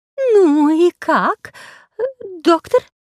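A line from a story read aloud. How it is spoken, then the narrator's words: Trembling question. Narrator (Russian): спросила медсестра дрожащим голосом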